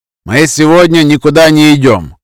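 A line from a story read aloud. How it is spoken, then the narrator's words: Loud announcement. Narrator (Russian): громко объявил всем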